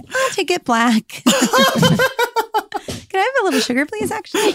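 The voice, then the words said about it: Imitates a nine-year-old boy. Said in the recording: “that was my impression of you at 9 ... It's pretty accurate.”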